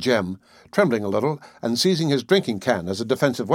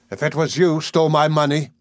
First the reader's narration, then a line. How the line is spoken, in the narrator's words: said Silas, clasping his hands entreatingly, and raising his voice to a cry